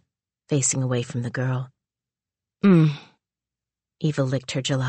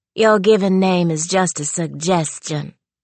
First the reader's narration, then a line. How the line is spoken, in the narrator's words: she started in her mom's Louisiana drawl